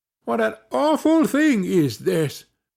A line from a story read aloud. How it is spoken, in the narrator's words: cried they